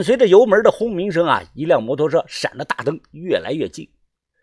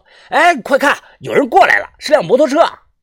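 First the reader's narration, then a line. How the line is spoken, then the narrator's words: Sudden shout. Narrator (Chinese): 突然，老张喊道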